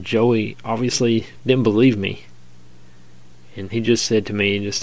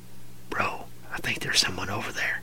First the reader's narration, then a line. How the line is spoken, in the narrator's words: I whispered